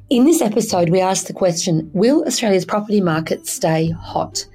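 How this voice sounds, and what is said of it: Croaky voice from a cold. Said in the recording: “I have a bit of a cold. ... I do sound a bit croaky.”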